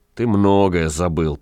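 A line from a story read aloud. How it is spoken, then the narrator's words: Wanderer grumbling. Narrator (Russian): проворчал странник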